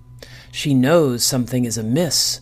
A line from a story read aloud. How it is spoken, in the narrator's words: hissed Tagglehop from where he hid amongst the brambles